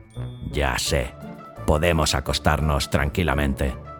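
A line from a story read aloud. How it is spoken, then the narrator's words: Murmuring. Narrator (Spanish): murmuró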